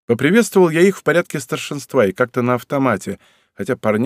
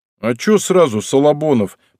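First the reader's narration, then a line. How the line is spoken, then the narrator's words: Muttered. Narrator (Russian): пробурчал Фусаши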